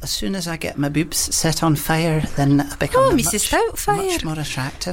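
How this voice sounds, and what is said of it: Put-on Scottish accent, character voice. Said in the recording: “That's about the best Scottish accent I can do, that little bit there... Mrs. Doubtfire... My Scottish is very limited.”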